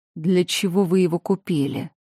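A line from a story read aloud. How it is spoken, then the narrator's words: Cold inquiry. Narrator (Russian): холодно осведомился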